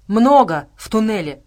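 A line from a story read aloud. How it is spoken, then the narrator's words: Deep bass voice. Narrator (Russian): пробасил Кузу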